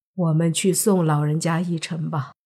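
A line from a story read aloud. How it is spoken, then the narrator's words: Calm, detached. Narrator (Chinese): 黑衣人淡淡的说道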